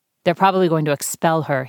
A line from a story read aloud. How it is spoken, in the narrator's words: he said